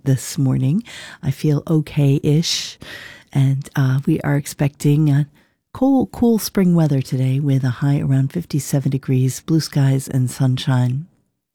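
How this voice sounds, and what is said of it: Slightly raspy voice with a cold. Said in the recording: “I have a little bit of a cold. I'm sorry I sound a little raspy”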